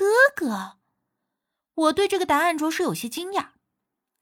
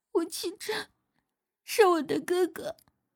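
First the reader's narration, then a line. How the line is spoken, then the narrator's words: Choked with sobs. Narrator (Chinese): 蒋圆圆依旧哽咽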